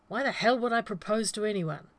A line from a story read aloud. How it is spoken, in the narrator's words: snapped